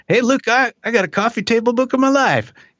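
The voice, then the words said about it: Bad put-on Southern accent. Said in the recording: “in a horrible Southern accent”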